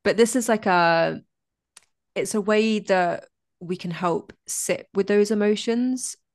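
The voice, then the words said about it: Speaks with a noticeable accent. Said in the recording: “I love an accent ... that was just my voice and my accent ... I love your voice and your accent”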